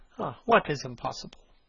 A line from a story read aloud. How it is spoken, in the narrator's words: murmured the young man